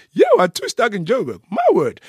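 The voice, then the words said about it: Imitates another person's voice. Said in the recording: “it's a good David Kabuki impersonation.”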